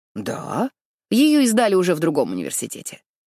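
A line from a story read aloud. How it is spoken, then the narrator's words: Dry. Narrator (Russian): сухо произносит Джоан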